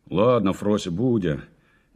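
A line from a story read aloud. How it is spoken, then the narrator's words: Displeased. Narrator (Russian): недовольным голосом сказал дядя Ваня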